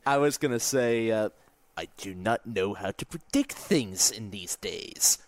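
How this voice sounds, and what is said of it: Peter Dinklage impression. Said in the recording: “That's a pretty good Peter Dinklage impersonation.”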